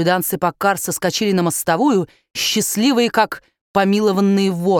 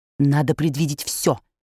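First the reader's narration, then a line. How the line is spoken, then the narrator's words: Whispered. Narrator (Russian): шепнул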